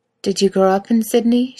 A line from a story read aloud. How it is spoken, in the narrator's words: She asks, her voice harsh and hoarse to her own ears